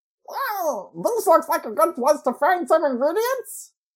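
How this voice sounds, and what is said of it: Donald Duck / Daffy Duck voice impression. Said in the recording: “halfway between Donald and Daffy ... leaning more towards Daffy”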